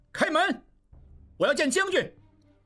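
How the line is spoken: Shouting. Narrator (Chinese): 应季用力打门喊道

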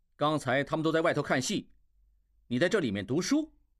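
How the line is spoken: Anger mostly subsided. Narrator (Chinese): 怒气平息了大半

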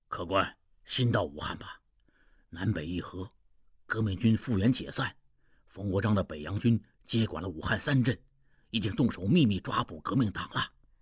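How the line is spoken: Old man, low voice. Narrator (Chinese): 一老者低声道

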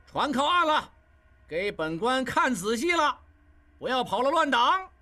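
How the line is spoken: Loud shout. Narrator (Chinese): 金勇在前面大喊

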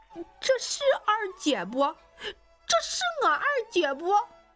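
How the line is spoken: Loud wailing. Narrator (Chinese): 又是一场嚎啕大哭

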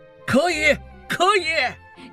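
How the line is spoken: Shouted in unison. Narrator (Chinese): 一伙人齐声喊

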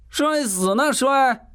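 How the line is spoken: Wild yelling. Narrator (Chinese): 虎妞狂叫了几声

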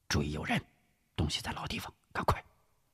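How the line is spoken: Low voice. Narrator (Chinese): 吴石……低声说道

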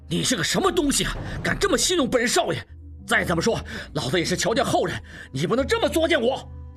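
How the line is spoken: Angry cursing. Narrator (Chinese): 应震怒骂道

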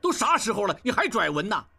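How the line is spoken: Angry. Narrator (Chinese): 应震怒道

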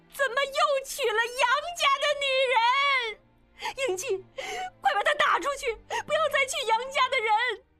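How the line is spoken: Shouting. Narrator (Chinese): 冲着众人大叫

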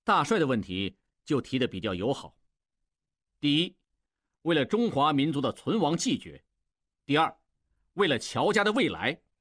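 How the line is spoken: Smiling. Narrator (Chinese): 恢复了笑容

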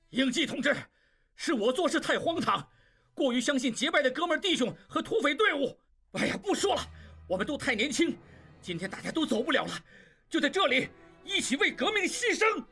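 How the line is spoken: Frantic shout. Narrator (Chinese): 蒋作斌血红着眼睛冲他喊道

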